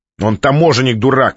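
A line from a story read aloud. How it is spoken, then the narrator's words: Girl shouting. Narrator (Russian): выкрикнула девушка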